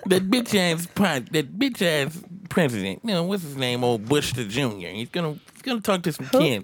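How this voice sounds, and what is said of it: Imitates another person's voice. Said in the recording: “You just do impersonations? ... let's get off my impersonation”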